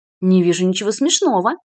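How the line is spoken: Stern, officer. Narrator (Russian): строго сказал подполковник

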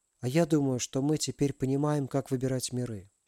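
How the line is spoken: Quiet. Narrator (Russian): тихо проговорила Алиса

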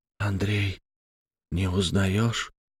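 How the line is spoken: Trembling whisper. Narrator (Russian): шептал Мересьев, чувствуя, что его всего начинает трясти

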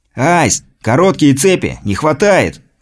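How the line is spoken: Shout. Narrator (Russian): крикнул он

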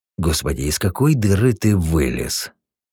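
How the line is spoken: Heavy sigh. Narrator (Russian): Тяжело вздохнул Борода

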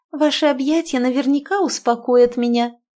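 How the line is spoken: Cooing, enveloping tone. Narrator (Russian): проворковала она с обволакивающими интонациями в голосе

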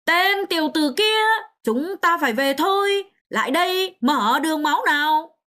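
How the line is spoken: Loud, urgent. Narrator (Vietnamese): hắn lập tức lớn tiếng nói

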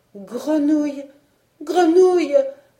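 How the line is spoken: Desperate cry. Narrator (French): s'écria-t-elle avec désespoir

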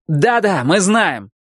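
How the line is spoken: Shouted reply. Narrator (Russian): крикнул он в ответ

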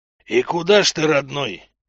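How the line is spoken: Creaky voice, dark creature. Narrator (Russian): проскрипело темное нечто

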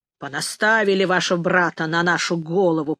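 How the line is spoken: Grumbling. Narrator (Russian): проворчал он

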